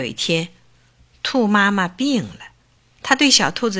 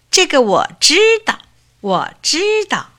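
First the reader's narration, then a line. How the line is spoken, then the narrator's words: Smug clamoring. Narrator (Chinese): 它觉得自己很聪明，嚷着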